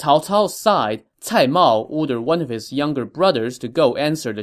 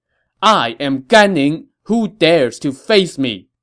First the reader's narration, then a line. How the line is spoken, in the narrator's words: a general shouted